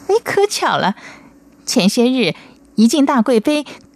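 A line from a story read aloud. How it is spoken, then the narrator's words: Smiling after thought. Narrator (Chinese): 孔思珍低头思索了半晌，然后笑着说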